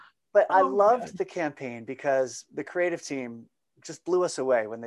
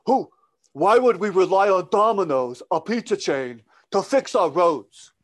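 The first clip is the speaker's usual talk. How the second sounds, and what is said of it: Poor impression of a politician's voice. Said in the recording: “So that's my terrible Bernie Sanders ... impersonator”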